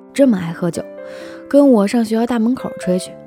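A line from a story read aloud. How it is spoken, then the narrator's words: Slight smile. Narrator (Chinese): 张小淼微微一笑说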